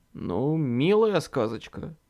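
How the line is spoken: Grumbling. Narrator (Russian): проворчал

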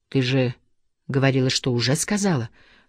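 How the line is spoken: Whistling whisper. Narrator (Russian): шепотом просвистел Монахов

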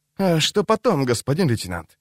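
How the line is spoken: Quiet question. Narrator (Russian): тихо спросил Андон

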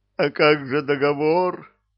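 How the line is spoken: Sobbing burly man. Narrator (Russian): рыдал качок

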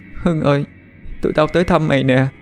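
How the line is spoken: Sniffling, tearful. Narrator (Vietnamese): Cái Mực sụt sùi

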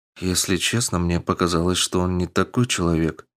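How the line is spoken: Quiet. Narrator (Russian): тихо произнесла Амазонка

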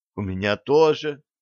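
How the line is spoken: Sigh. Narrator (Russian): вздохнула Стесси

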